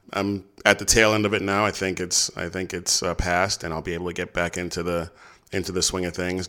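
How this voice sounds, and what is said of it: Sick, under-the-weather voice. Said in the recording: “I was a little under the weather, and you can probably still hear it in my voice this week.”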